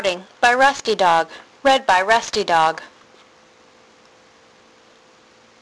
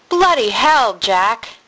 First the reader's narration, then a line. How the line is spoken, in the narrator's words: he said, shifting impatiently from foot to foot